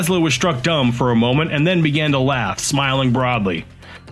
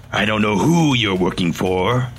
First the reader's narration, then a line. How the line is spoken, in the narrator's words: Laszlo said in a dark tone